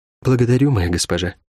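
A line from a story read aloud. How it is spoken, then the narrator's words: Quiet speech. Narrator (Russian): тихо сказала Рукавичка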